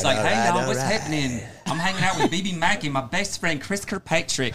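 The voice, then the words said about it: Southern drawl imitating another person's voice. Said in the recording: “your Southern accent ... mine's always like Gay or Matthew McConaughey”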